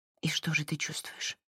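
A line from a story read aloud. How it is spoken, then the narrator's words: Whisper. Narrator (Russian): прошептала Марин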